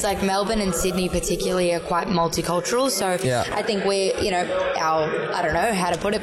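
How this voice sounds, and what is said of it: Australian accent. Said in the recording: “I was born and raised in Melbourne, in Victoria ... Where's your accent from?”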